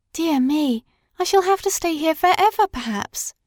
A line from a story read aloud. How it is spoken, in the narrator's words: sighed